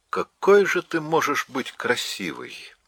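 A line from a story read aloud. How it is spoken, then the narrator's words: Tender. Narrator (Russian): сказал он нежно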